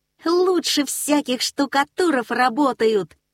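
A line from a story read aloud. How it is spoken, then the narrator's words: Cheerful shout. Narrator (Russian): весело закричал Нильс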